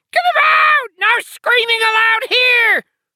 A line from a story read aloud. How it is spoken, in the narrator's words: other head screamed